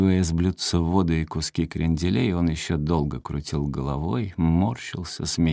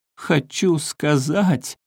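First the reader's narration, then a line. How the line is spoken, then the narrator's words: High-pitched shout, laughing, near tears. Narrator (Russian): Смеясь и почти плача, закричал он тонким голосом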